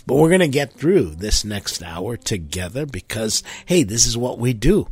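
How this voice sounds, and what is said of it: Congested, stuffy-sounding voice. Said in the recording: “I am congested. My head is stuffy, and I think you can hear it in my voice.”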